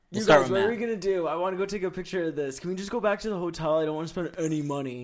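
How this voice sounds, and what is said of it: Imitates another person's voice. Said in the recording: “Which player can do the best impression of me?”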